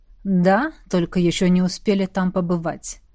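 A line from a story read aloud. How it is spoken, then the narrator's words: Plain. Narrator (Russian): ответил Седерик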